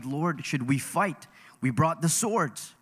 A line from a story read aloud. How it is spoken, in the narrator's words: the other disciples saw what was about to happen, they exclaimed